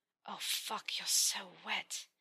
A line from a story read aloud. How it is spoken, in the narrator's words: groaned